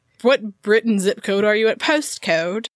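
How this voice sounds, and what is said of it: Terrible put-on English accent. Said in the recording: “That was a terrible English accent.”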